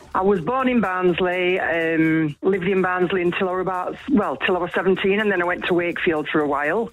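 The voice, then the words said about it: South Yorkshire accent. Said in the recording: “Barnsley ... You can tell with my accent”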